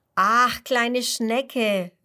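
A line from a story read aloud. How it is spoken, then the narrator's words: Calling out. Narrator (German): ruft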